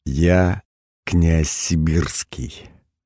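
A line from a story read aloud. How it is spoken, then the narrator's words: Completely calm. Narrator (Russian): ответил я совершенно спокойно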